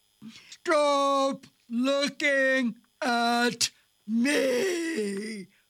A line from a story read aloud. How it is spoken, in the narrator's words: roars the rhinoceros